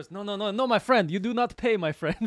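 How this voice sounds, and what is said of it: Bad Middle Eastern-style put-on accent. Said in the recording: “with a Middle Eastern accent, with some type of Kazakhstanian accent ... he's doing this terrible accent”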